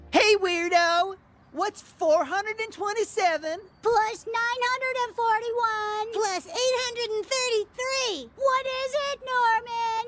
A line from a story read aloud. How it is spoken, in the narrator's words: children used to poke Norman and scream